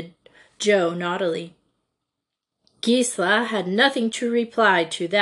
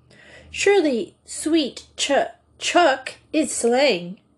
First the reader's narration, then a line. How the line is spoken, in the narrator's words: exclaimed Gisela, stumbling slightly over the unusual term